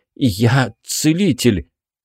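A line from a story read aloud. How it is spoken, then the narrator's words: Nervous, forced out. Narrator (Russian): нервно сглотнул и выдавил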